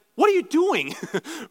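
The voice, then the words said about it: Stern scolding dad voice. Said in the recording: “dad voice”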